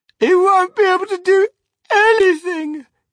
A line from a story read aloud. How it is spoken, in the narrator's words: cried Mrs